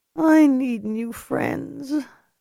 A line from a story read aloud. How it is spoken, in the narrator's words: Ellie muttered